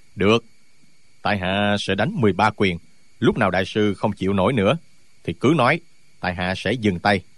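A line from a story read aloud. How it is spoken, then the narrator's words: Furious. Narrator (Vietnamese): nổi điên lên, mới nói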